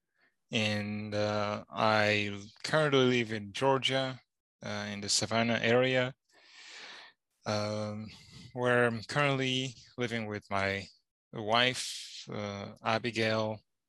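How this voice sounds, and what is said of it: Rwandan-accented English, non-Southern. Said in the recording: “Now that doesn't sound like a Georgia accent. ... Georgian accent is definitely much better than mine. ... I was born and raised in Rwanda.”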